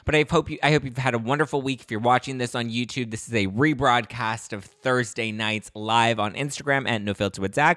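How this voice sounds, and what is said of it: Slightly hoarse, strained voice. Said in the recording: “losing my voice just a little bit”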